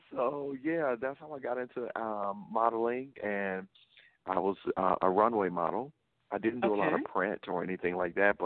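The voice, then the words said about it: Noticeable Southern US accent. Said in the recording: “you have an accent. ... I'm from the South. I'm from Louisiana. ... it is very noticeable.”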